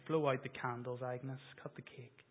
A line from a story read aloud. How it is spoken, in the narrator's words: Harry, the guy behind the counter who's not used to seeing these types of ladies cry, mumbles to Agnes